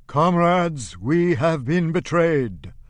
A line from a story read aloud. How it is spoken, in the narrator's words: Hungerman roars